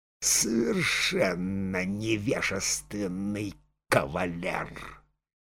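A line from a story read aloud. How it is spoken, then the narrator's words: Hissing whisper. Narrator (Russian): Анна Фоминична прошептала шипящим голосом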